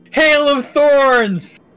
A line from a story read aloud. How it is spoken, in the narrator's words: Grimsby shout